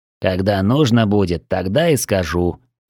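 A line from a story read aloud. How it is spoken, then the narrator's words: Grumbling old man. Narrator (Russian): проворчал старик в ответ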